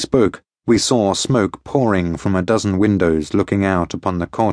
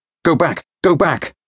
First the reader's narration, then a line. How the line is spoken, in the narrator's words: I cried to those who had accompanied me